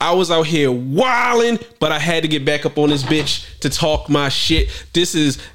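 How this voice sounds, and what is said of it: Usual voice. Nothing is said of it.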